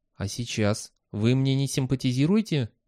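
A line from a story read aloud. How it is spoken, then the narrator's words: Quiet question. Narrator (Russian): тихим голосом спросила она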